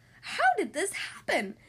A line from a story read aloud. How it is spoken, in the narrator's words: cried